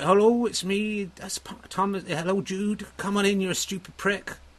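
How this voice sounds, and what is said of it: Put-on Dorset accent. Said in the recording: “it should be Dorset. It's kind of where I grew up.”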